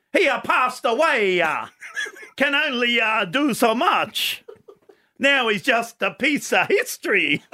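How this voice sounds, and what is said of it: Put-on accent. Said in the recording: “I've just got to get into my accent. ... See, the accent”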